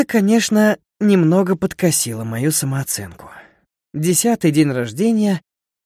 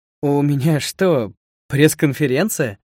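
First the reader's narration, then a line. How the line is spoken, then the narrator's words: Laughing. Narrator (Russian): смеялся Слава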